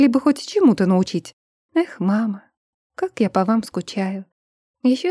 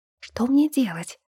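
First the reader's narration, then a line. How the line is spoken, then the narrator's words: Barely audible question. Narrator (Russian): еле слышно спросила я у Викра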